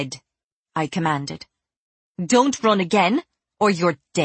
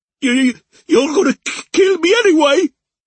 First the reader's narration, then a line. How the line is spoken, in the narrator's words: Alfie cried, clutching his ribs